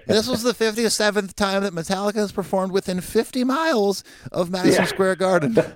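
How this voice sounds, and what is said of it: Reading in a put-on voice. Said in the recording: “I'm going to read this in a different voice”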